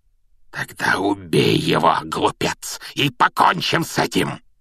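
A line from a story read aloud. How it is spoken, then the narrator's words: Hoarse shout. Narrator (Russian): хрипло выкрикнул Волан-де-Морт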